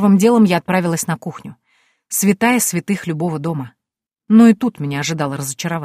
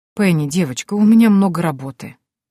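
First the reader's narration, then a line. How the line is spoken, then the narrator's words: Sad sigh, old man. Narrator (Russian): грустно вздохнул старик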